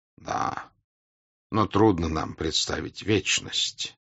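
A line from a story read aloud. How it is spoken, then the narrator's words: Quiet, serious. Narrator (Russian): сказал Димлер, теперь говорил так же тихо и серьезно, как и они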